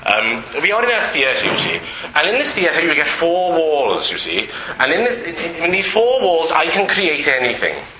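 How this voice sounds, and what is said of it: Put-on Welsh accent. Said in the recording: “This is part of a Welsh accent”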